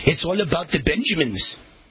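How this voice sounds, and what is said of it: Attempted Somali accent imitation. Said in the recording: “I don't know if that's a Somali accent. I think I got that accent wrong. I've never been good at accents. But Ilhan Omar with her Somalian accent”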